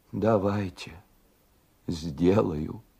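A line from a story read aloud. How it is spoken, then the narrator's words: Quiet. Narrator (Russian): тихо ответила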